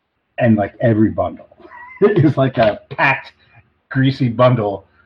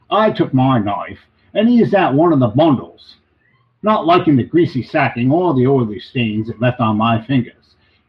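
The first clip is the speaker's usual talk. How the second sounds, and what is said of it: Put-on Australian accent. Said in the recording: “you gotta do this in an Australian accent. It sounds really great.”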